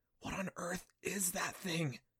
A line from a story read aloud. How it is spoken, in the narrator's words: Adam whispered to himself